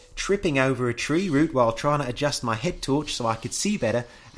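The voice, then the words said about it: Attempted New Zealand accent, not convincing. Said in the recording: “practice my accent again ... The accent's not getting better ... I'm usually pretty good at accents. Apparently New Zealand is not”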